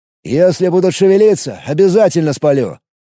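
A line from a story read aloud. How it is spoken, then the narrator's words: Loud. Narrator (Russian): громко произнес граф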